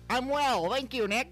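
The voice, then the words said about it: Nerdy put-on voice. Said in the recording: “nerd voice”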